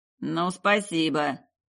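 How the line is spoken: Grumble. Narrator (Russian): проворчал Рыжий

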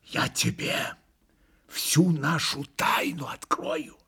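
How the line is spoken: Hurried whisper. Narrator (Russian): зашептал спеша Митя

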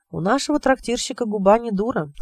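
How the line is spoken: Sighing. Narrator (Russian): сказал он и вздохнул

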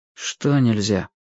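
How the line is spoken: Sad reply. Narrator (Russian): грустно отозвался Юрик

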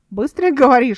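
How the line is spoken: Short chuckle. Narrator (Russian): хохотнул Верден

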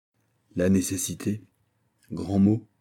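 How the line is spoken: Young king murmuring. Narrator (French): murmura le jeune roi

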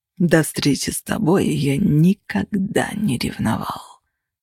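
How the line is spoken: Quiet and menacing. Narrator (Russian): продолжал Костя все тем же тихим и угрожающим тоном

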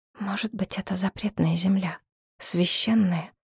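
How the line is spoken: Whisper. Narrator (Russian): шепнула она

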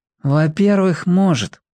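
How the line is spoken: Wise weary sigh. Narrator (Russian): вздохнул умудренный жизнью Пека

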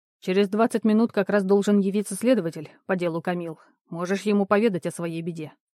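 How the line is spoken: Scoff masking nervousness. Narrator (Russian): хмыкнул, стараясь скрыть собственное волнение

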